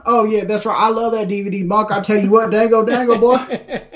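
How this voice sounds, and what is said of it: Put-on Southern US accent. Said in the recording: “Do like a southern one or something.”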